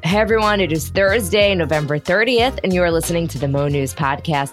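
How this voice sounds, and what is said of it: Sick-sounding, unwell voice. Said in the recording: “As you could tell from my voice, I am still not 100%”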